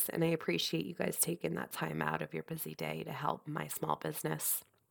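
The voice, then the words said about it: Congested, nasal voice. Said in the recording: “hear it in my voice ... very congested ... I'm just not sounding better ... I'm sounding so nasally”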